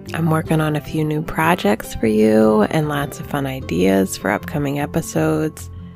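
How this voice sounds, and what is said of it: Voice not fully recovered. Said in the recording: “My voice is not really back”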